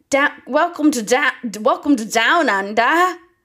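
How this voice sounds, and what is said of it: Put-on German accent. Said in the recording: “that was German. That was a German accent. Pretty good.”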